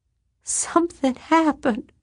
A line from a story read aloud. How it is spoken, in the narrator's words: she whimpered